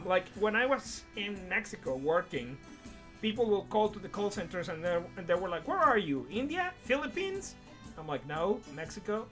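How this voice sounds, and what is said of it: Mexican-accented English, hard to place. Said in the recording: “I obviously have an accent, but no one is able to pinpoint it ... you're from Latin America, right? I'm like, yes, Mexican.”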